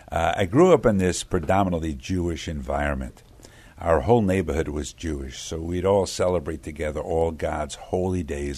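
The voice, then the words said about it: Brooklyn New York accent. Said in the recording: “I was born in Brooklyn, New York ... And the accent does remain, by the way.”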